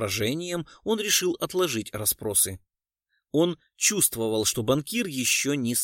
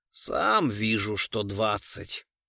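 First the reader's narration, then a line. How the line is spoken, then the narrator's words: Grumble. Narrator (Russian): проворчал Гуров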